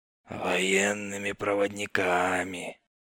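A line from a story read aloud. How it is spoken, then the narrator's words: Hoarse, smirking correction. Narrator (Russian): с усмешкой поправил хриплый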